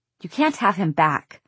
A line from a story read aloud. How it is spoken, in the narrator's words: Clary snapped